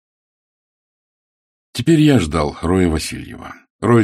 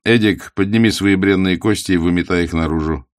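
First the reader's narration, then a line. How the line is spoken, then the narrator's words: Almost cheerful. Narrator (Russian): почти весело сказал он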